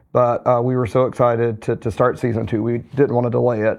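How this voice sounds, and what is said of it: Hoarse, slightly cracking voice. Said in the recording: “I'm a little bit hoarse. I'm recovering from a cold. ... my voice will be a little bit uh, cracking”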